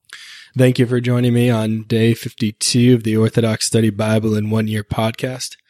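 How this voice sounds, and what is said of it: Slightly raspy voice. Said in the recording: “Sorry for my voice. It's a little raspy towards the end of the day.”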